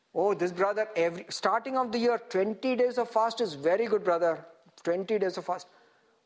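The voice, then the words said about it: Put-on Indian accent. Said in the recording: “Another Indian accent is coming out.”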